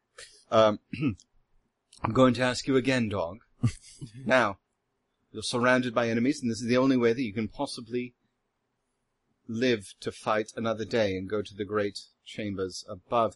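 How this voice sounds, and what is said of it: Villainous British accent. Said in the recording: “I'm going to affect the equivalent of the British accent for evil”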